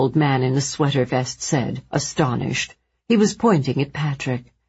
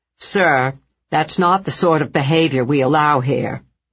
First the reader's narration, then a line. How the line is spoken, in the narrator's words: he said in a stern voice